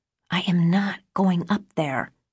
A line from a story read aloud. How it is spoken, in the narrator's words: I whispered back